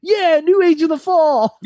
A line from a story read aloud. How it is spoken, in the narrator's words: Omega screamed